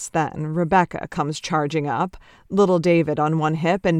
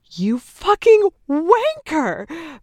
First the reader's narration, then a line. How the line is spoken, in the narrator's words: Bex squeals